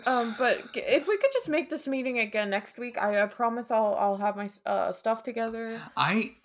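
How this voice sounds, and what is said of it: Put-on nerdy voice. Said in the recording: “this nerd voice that you're doing”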